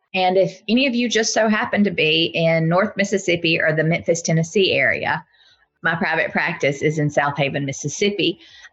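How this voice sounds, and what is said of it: Deep Southern US accent. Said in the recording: “my deeply Southern accent.”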